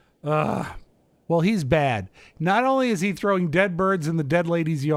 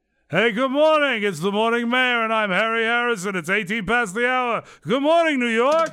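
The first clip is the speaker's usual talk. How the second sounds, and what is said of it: Impression of radio DJ Harry Harrison. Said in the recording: “this disc jockey ... I do a passable impression of him ... allow me to do another CBS/ABC disc jockey for you ... the original morning mayor, the great Harry Harrison”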